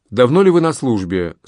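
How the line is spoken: Plain. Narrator (Russian): спросил де Крессе

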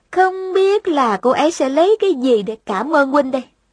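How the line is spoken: Smiling. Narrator (Vietnamese): Thành Thành mỉm cười nói

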